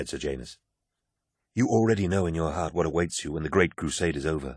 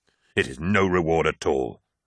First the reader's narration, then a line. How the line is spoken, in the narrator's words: snarled Horus